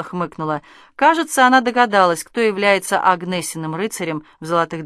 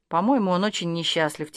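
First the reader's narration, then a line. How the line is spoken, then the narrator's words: Quiet. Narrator (Russian): тихо проговорила Ольга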